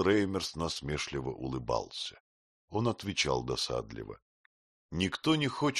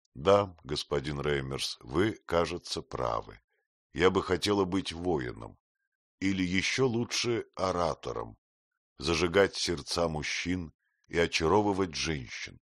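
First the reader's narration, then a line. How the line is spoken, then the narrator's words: Calm. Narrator (Russian): Сказала спокойно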